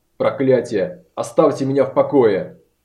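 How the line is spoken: Growling. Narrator (Russian): прорычал он

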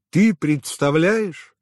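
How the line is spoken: Yelling into phone. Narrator (Russian): орала Надежда в трубку

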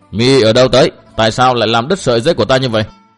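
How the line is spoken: Woman's shouted question. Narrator (Vietnamese): Người đàn bà kia lại quát hỏi

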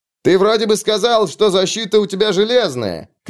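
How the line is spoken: Mocking shout amid laughter. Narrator (Russian): крикнул какой-то остряк с галереи, сопровождаемый смехом

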